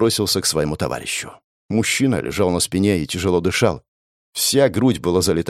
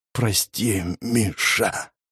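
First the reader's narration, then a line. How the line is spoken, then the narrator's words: Faint hoarse rasp. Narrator (Russian): прохрипел он едва слышно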